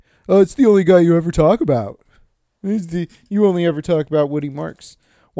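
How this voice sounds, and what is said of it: Imitates another person's voice. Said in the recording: “my Walker impression.”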